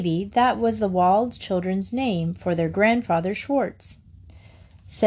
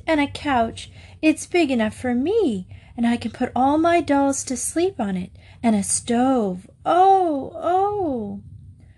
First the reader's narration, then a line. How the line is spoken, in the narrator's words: breathed